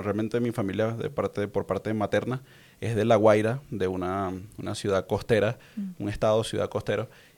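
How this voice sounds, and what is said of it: Venezuelan Spanish accent. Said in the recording (Spanish): “por mi acento y por mi forma de hablar, pues quizás lo reconocen, soy de Venezuela”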